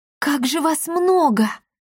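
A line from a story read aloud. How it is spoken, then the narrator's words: Delighted exclamation. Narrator (Russian): восторженно воскликнула Дарина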